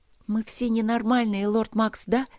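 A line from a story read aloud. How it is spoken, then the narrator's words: Loud whisper. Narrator (Russian): громко зашептала она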